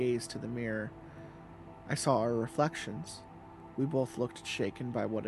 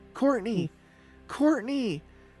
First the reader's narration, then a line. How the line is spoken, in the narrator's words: I screamed